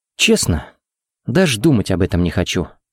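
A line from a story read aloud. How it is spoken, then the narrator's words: Sad chuckle. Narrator (Russian): грустно усмехнулся Харри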